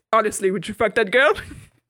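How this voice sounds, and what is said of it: Imitates another person's accented voice. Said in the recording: “done that impression ... His accent isn't even like how I'm doing it”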